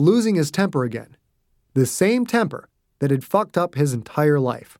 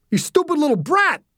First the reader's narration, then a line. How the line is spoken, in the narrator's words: the man screamed